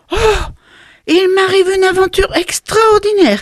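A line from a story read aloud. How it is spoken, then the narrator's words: Excited exclamation. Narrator (French): s'écria-t-il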